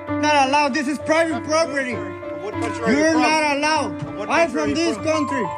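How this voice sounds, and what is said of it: Speaks English with a foreign accent. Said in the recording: “hearing that you have an accent”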